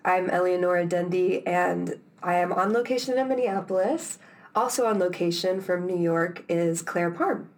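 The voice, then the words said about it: Rough, under-the-weather voice. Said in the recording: “I'm a little under the weather, so my voice is gross”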